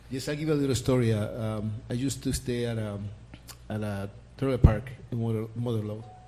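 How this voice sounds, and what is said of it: Slight Panamanian Spanish accent. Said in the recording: “he is from Panama. He's got a little bit of an accent ... I'm from Panama. I do have an accent.”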